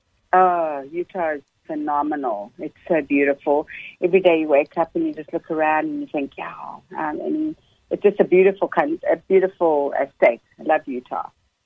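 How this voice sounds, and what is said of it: South African accent. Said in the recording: “born and raised in South Africa... I guess I was too old to lose my accent, so I still have it”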